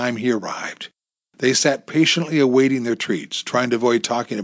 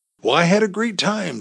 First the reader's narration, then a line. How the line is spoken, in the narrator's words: Chuck said warmly